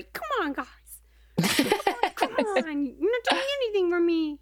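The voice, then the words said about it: Whiny baby voice. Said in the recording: “baby voice ... when he's mad at his teammates”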